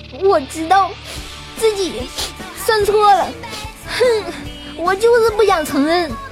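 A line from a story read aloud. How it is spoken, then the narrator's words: Crying. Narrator (Chinese): 新海自己在那儿哭啊，然后一边哭一边就说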